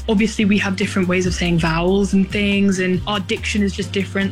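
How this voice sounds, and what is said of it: British accent. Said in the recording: “lose their British accent ... keeping your British tone”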